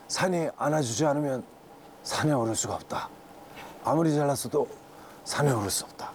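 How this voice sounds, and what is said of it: Imitates another person's voice. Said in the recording (Korean): “성대모사”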